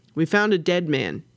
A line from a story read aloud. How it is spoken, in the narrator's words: snapped